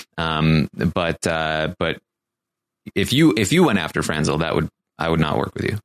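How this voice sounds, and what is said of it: Impression of Ian. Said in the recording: “your Ian impersonation ... SNL is waiting to send you an invitation”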